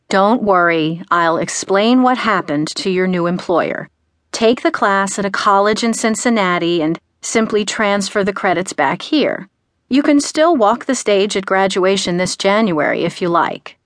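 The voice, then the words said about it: Calm, soothing voice. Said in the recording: “In a calming voice,”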